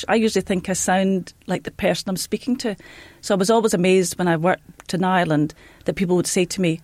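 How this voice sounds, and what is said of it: Strong Scottish accent. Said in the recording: “I think ... sounds about as Scottish as it's possible to sound.”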